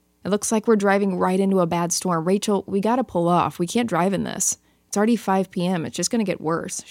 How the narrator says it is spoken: she said

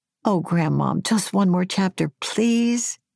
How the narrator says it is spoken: my granddaughter pleaded

